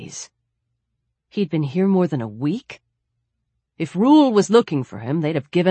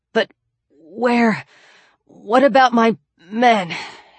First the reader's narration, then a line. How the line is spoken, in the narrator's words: His voice was rusty as an old hinge